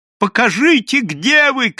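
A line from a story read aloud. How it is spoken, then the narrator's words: Shout. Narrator (Russian): крикнул Иоанна Польский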